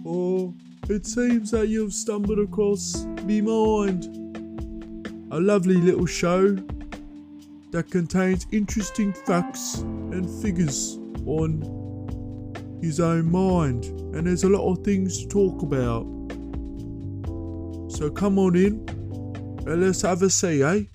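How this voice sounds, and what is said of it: Put-on Birmingham accent. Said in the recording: “it's gone from a Birmingham accent to more of a Cockney slang”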